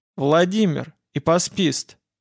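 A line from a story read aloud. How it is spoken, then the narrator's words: Cold reply. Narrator (Russian): ответил Владимир холодно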